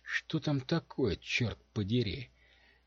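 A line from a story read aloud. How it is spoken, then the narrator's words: Exclamation, female. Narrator (Russian): воскликнула Домино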